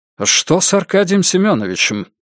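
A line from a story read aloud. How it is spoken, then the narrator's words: Anxious question. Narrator (Russian): тревожным голосом спросил Николай II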